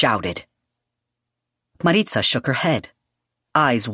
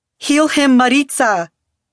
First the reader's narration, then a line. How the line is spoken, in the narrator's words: Yadriel begged